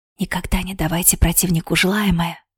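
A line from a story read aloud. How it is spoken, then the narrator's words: Serious instructive whisper. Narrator (Russian): поучительно прошептал магистр без тени насмешки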